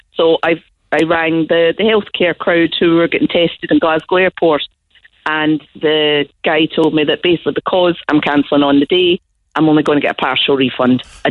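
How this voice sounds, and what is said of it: Speaks with a noticeable regional accent. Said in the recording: “I love the accent.”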